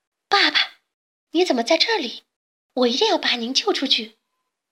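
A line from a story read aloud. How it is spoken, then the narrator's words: Shouting. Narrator (Chinese): 贝尔的喊叫声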